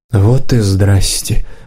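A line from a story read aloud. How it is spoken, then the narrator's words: Mistress muttering. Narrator (Russian): пробормотала хозяйка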